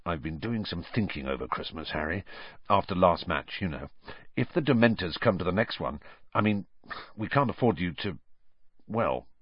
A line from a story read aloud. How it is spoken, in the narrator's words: lowered his voice, and said